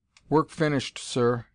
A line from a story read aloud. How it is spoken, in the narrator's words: said